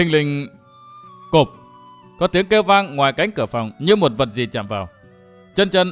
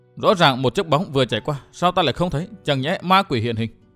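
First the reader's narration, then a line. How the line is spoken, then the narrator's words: Muttering. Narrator (Vietnamese): Chân chân lẩm bẩm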